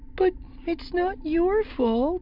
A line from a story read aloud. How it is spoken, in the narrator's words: Chiri said, her voice tense and miserable